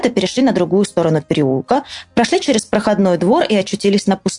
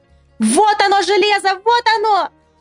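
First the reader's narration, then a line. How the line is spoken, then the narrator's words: Shouting. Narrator (Russian): закричала Ниночка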